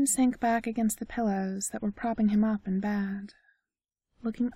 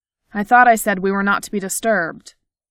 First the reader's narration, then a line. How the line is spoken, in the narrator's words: he snapped